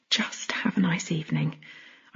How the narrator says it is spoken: I murmured

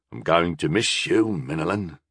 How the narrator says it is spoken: he sighed

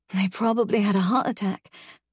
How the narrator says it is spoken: I groan

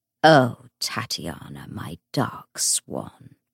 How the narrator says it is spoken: Belial murmured

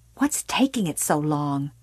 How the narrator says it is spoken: she hissed at him

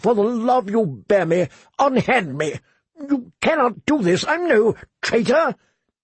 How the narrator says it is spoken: the prisoner asked desperately

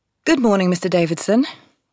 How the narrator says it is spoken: say brightly, topping his energy

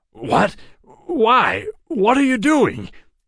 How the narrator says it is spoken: Joshua stammered

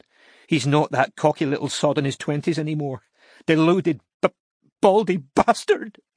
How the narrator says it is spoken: she sobbed

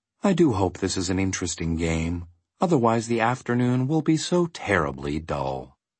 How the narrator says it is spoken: he remarked wistfully

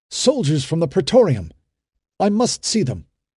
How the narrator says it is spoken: he cried

